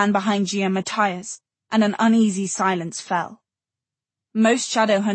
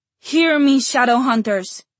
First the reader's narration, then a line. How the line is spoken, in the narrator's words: Matthias cried, his eyes burning with a fanatic light